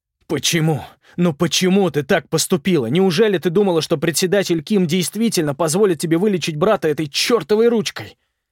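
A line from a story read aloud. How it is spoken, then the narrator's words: Shouting. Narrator (Russian): Даик кричал на Сельми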